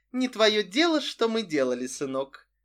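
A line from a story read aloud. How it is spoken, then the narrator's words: Patronizing tone. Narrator (Russian): покровительным тоном сказала Психея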